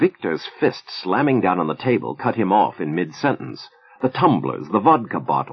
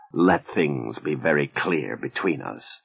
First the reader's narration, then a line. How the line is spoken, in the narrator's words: the Russian declared in a harsh whisper